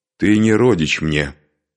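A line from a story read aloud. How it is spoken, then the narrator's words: Calm. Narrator (Russian): спокойно ответила Элда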